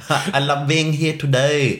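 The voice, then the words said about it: Put-on Thai accent. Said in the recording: “You'd probably do the Thai accent”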